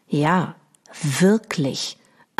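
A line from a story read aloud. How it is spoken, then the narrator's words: Slow, meaningful lowered voice. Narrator (German): antwortet betont langsam und senkt bedeutungsvoll die Stimme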